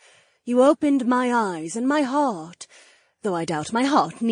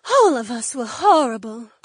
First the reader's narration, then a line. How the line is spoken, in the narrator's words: Cleia breathed